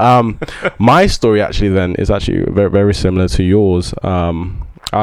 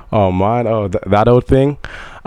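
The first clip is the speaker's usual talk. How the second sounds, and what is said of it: Put-on American accent. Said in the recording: “why are you talking like this? ... my American accent just really comes out every now and then”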